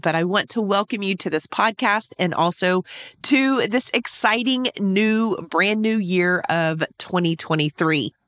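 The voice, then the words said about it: Voice sounds a bit sick. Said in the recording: “I'm a little under the weather, so you can probably hear that in my voice”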